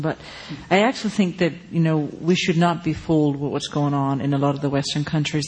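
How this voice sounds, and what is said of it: Danish accent. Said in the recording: “if you detected an accent, I'm Danish by background”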